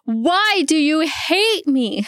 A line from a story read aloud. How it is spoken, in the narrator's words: she starts sobbing